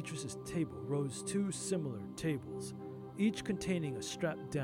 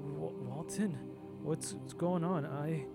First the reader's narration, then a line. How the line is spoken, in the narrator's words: Beatrice groaned